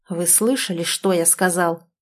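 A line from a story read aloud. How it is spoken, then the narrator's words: Growl. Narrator (Russian): прорычал он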